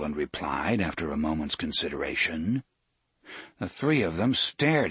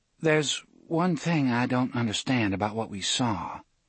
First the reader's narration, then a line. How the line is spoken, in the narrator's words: Susanna said hesitantly